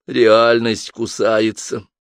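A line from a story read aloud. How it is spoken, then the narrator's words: Glum statement. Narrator (Russian): уныло констатировала Алиса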